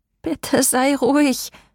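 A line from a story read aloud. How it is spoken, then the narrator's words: Pleading. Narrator (German): flehte ich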